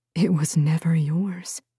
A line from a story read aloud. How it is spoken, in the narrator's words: the woman said, her voice steady